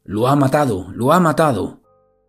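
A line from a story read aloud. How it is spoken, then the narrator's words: Panicked shouting while running. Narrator (Spanish): entra en pánico y comienza a correr por la calle gritando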